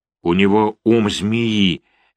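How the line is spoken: Slow speech. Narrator (Russian): медленно произнес Андреа

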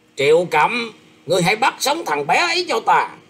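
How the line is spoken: Harsh shouted command. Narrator (Vietnamese): Ngải Đường Dương gằn giọng quát rằng

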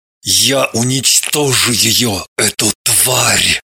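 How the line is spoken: Through gritted teeth. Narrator (Russian): Процедил сквозь зубы Соболев

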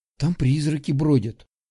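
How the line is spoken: Quiet speech. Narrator (Russian): тихо сказала Милка

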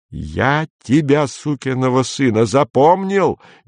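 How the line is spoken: Frenzied shouting. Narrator (Russian): неистово кричал Кэнси

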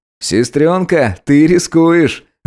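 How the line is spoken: Laughing. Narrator (Russian): рассмеялся Эдик

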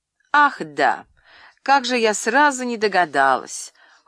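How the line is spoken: Cold, with rippling laughter. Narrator (Russian): Холодно проговорила, смеясь журчащим смехом

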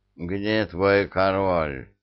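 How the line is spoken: Booming drone. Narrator (Russian): прогудел Шива

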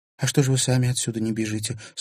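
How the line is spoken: Plain. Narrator (Russian): спросила Лиза

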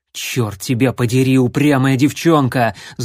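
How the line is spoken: Angry hiss. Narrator (Russian): зло прошипел Джон

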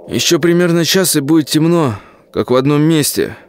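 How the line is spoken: Hopeful remark. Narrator (Russian): обнадеживающе заметил Колян

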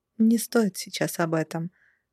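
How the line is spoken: Soft reply. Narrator (Russian): мягко откликнулась Дилара

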